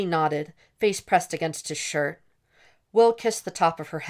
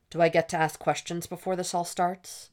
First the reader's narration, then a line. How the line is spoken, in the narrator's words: he asked